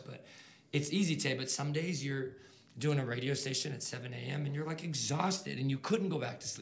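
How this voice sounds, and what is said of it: Somewhat hoarse voice. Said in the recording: “My voice is kind of hoarse”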